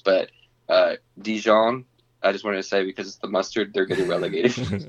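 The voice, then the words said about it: Put-on French accent. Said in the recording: “How long did you practice that little accent, huh? ... I took French in high school.”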